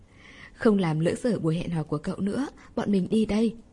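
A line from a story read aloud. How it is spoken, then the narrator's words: Giggling. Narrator (Vietnamese): Hai người bạn ... cười khúc khích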